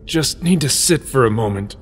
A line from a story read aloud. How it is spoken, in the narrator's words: Link grunted